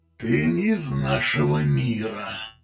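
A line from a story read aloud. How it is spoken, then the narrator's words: Hissed. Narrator (Russian): прошипел Люкорив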